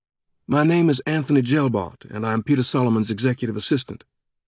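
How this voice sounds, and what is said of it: Hesitant voice, slight Southern accent. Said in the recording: “The polite voice was noticeably hesitant, with a hint of a southern accent.”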